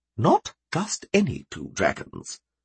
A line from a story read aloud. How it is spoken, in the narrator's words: she warned softly